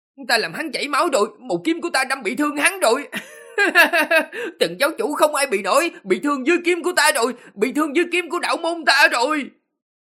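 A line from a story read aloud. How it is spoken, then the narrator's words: Joyful exclamation. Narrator (Vietnamese): Lâm Hiên đạo chủ ... vui sướng kêu lên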